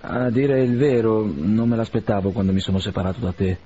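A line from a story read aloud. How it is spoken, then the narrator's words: Plain. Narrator (Italian): rispose Arkady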